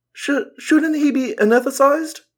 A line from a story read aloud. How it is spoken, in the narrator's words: I stammered